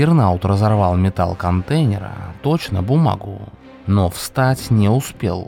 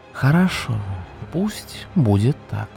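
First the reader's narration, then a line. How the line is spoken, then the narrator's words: Quiet. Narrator (Russian): негромко произнес Дим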